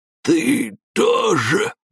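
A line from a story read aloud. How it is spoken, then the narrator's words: Strangled wheeze, muffled. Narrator (Russian): сдавленно прохрипел из ящика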